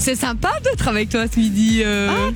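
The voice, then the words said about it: Fake semi-Parisian French accent. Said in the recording (French): “tu nous parles avec un accent semi-parisien? ... c'est vraiment un accent du job. C'est une fille de Rivière-du-Loup qui essaie de faire un accent parisien.”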